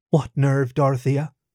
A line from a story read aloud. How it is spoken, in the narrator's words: Betty asked calmly